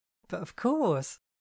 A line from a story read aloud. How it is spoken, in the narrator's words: Penny laughed